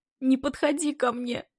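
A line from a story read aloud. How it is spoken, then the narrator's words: Broken voice, sobbing. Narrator (Russian): Говорит надломленно и еще гуще всхлипывать начала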